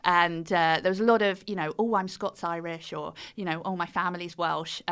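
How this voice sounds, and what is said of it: British accent. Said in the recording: “the British accent ... my accent”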